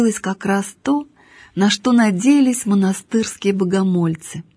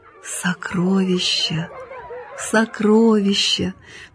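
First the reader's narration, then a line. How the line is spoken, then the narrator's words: Barely audible whisper. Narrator (Russian): приговаривал он едва слышным шепотом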